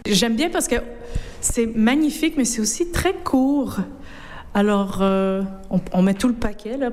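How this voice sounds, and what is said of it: North American French accent. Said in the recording (French): “à votre accent, que vous êtes une de nos cousines outre-Atlantique”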